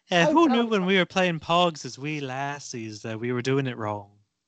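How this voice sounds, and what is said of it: Fading put-on Irish accent. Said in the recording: “my Irish accent ... It's deteriorating before our very ears”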